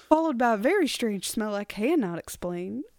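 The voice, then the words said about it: Southern Belle accent. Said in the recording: “Southern Belle. ... that Southern Belle accent? Nail on the head.”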